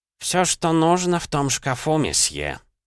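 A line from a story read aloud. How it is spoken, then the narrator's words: Grumbled. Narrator (Russian): проворчал он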